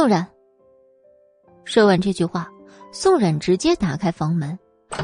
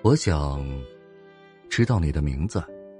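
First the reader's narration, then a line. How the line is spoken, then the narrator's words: Soft, gentle. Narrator (Chinese): 轻声开口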